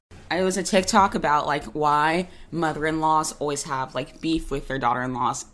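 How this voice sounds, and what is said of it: Hoarse, failing voice. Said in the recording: “I'm so sorry. I was losing my voice.”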